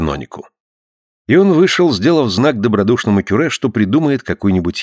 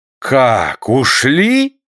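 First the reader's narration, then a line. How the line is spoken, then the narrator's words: Upset exclamation. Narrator (Russian): воскликнул огорченный каноник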